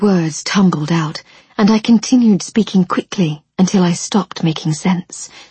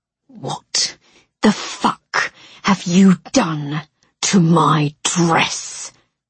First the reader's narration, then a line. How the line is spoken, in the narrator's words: snarled